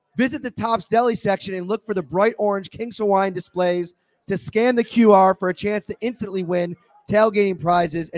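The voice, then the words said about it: Strained, worn-out voice. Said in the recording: “I'm losing my voice.”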